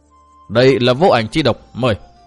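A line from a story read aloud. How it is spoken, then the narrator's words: Cold voices. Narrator (Vietnamese): Giọng nói lạnh lùng của hai người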